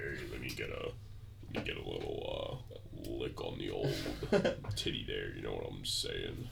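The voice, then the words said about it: Super deep put-on voice. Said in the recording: “he gets like a super deep voice when he's horny”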